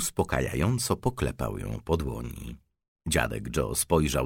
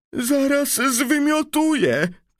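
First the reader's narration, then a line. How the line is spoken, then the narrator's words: Nauseous shout. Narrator (Polish): krzyknęła pani Tivi, zieleniejąc na twarzy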